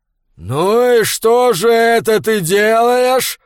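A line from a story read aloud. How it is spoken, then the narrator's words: Growling into ear. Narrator (Russian): прорычал Фриавару ему в ухо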